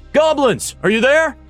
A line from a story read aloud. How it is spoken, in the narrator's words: Bert yelled